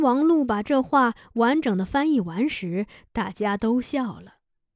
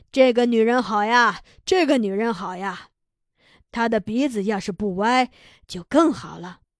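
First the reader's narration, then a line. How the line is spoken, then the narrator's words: Laughing, repeating. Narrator (Chinese): 铃木秀男笑了，他连连说着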